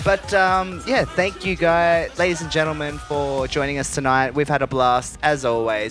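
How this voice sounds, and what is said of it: Broad Australian accent. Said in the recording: “my bogan Aussie accent”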